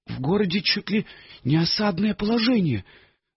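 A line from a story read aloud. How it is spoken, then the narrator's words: Sighing. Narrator (Russian): вздохнул Муфта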